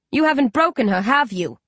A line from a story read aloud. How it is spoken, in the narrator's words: Dandan snaps at Barnes and Coley